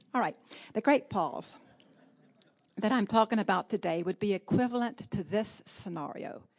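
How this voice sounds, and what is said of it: Southern American accent. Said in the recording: “my uh, southern accent sounds like I'm saying pause”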